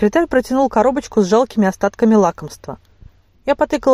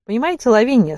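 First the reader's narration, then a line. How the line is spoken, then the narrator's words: Very informal tone. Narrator (Russian): сказал совсем неофициальным тоном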